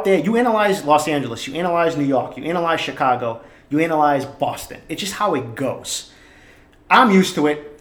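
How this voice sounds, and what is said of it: Boston accent. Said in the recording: “this Boston guy, you hear the fucking accent”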